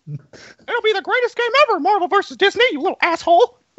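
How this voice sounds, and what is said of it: Mickey Mouse cartoon voice impression. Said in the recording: “If I have one accent that's pretty decent, it's Mickey. ... Mickey Mouse”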